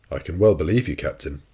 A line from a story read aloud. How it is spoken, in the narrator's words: said, in a slightly ironical tone